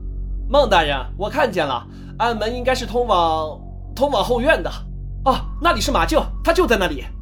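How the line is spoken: Shouting. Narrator (Chinese): 梦想对进去的兄弟喊道

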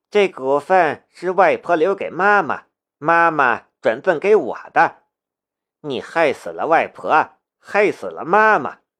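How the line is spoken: Cold. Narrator (Chinese): 他冷冷的看着苏老

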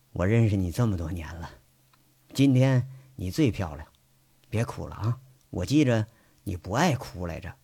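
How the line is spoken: Forced smile. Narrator (Chinese): 他努力笑了笑，说着

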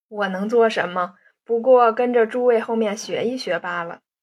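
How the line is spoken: Laughing. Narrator (Chinese): 燕西笑道

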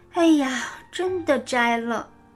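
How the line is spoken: Sighing. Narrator (Chinese): 牛牛长吁短叹

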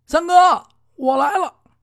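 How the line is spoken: Calling out. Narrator (Chinese): 八爷往屋子里边一叫

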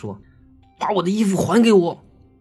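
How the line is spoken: Stern shout. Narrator (Chinese): 一脸严厉的喊道

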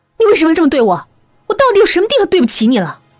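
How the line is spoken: Angry. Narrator (Chinese): 我愤怒的说

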